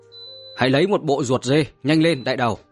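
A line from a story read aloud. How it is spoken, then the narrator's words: Loud urgent shout. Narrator (Vietnamese): Trường Sinh lại hét lớn ra ngoài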